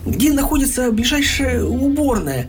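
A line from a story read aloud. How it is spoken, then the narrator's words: Strained, pained squeeze-out. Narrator (Russian): Схвативший за живот, выдавил из себя Пух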